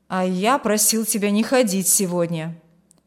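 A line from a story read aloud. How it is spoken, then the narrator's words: Angry interjection. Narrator (Russian): сердито вставил Алексей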